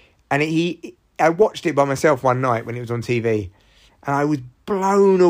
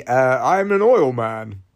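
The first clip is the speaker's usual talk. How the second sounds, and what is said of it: Daniel Day-Lewis as Daniel Plainview impression. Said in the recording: “he plays Daniel Plainview ... that's my impression of him”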